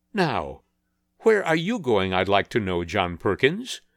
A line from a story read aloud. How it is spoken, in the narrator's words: asked Katie in a querulous tone